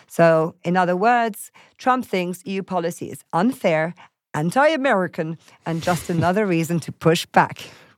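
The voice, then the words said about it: Poor attempt at American accent. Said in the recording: “a hint of a Trump impression ... It's a hint of an American accent, but obviously I'm terrible at them. It sounds sometimes Irish when I try and speak American.”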